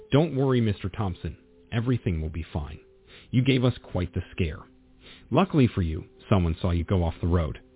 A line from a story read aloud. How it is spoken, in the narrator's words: she said